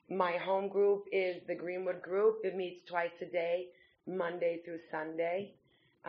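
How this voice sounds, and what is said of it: Brooklyn, New York accent. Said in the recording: “You could probably tell I'm from Brooklyn, New York. I haven't been able to get rid of the accent quite yet.”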